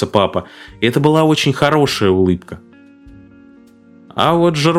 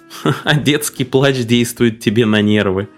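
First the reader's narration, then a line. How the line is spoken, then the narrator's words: Laughing, mother. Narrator (Russian): рассмеялась мама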